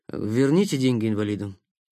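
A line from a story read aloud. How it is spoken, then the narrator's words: Quiet, awkward, embarrassed. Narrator (Russian): тихо сказал танцор, чувствуя неловкость и какое-то злое смущение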